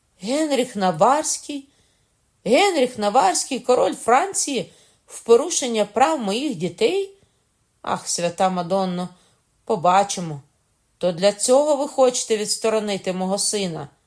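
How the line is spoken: Cry after a pause. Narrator (Ukrainian): по кількох секундах мовчанки, скрикнула

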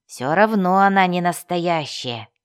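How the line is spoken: Muttered under breath. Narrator (Russian): буркнул он себе под нос

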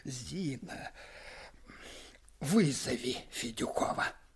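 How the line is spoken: Muffled, dull voice. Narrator (Russian): сказал глухо

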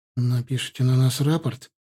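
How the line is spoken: Frightened question. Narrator (Russian): испуганно спросил Нарыв

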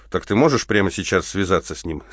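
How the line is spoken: Plain. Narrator (Russian): спросил Малиновский

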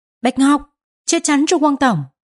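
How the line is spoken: Loud shout. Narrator (Vietnamese): A Bảo hét lớn

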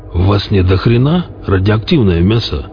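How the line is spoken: Hoarse barbarian voice. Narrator (Russian): хрипло поинтересовалось окошко голосом варвара

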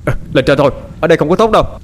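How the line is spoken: Shout-like speaking. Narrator (Vietnamese): 12 nói mà như quát

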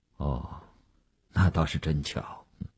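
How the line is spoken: Indifferent. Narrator (Chinese): 吴长天淡淡地说

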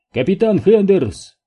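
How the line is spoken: Shouting back. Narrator (Russian): Капитан прокричал в ответ

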